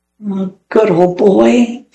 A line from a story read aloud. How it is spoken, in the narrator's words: said Alan sadly